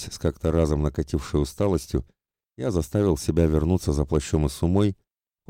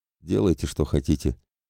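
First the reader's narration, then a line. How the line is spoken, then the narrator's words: Quiet, coughing. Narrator (Russian): тихо ответил Родриго, закашлявшись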